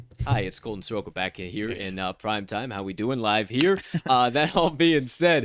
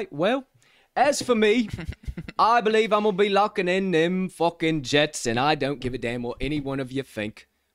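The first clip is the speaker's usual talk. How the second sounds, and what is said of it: Put-on British accent. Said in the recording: “I'll put away the British accent”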